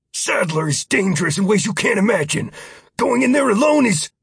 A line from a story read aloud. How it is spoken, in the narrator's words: A man who managed to growl while nearly shouting said